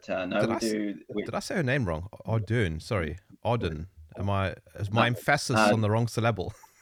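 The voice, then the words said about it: South African accent. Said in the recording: “we love the South African accent here ... we're familiar with your accent”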